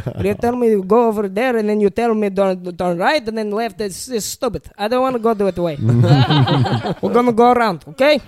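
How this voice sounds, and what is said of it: Imitates grandfather's thick accent. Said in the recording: “he doesn't have a thick accent, but my grandpa does ... I've been trying to, like, just get his accent perfectly down”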